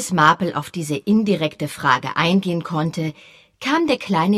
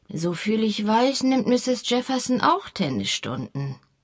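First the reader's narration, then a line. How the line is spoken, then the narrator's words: Murmuring to herself. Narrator (German): murmelte Miss Marple vor sich hin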